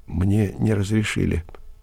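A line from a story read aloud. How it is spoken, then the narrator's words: Quiet reply. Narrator (Russian): тихо ответила Марья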